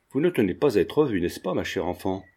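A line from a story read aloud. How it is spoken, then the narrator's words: Plain question. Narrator (French): demanda-t-elle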